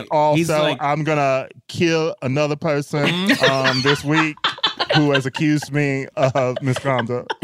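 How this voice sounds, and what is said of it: Southern accent Kevin Spacey impression. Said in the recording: “That was so Kevin Spacey though. ... I'm just doing my southern accent.”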